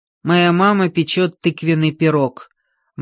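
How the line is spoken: Gloomy declaration. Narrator (Russian): мрачно заявил Джордж

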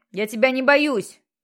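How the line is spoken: Full-throated shout. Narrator (Russian): крикнул Джексон во все горло

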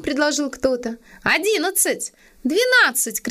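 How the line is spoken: Woman shouting. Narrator (Russian): крикнула дама

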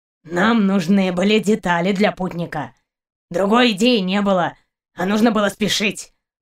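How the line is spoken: Grumbling. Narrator (Russian): проворчал Каранец

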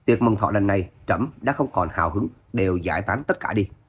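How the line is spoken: Contemptuous snort. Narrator (Vietnamese): hoàng đế hừ nói

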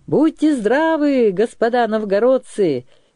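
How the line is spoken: Cheerful greeting. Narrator (Russian): весело сказал кормщик Кряж

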